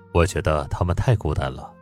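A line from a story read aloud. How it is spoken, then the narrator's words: Smiling, hinting. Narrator (Chinese): 他嘴角搓着笑，提点道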